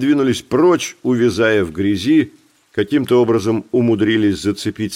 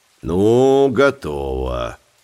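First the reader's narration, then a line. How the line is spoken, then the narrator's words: Calm. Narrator (Russian): спокойно сказал Билли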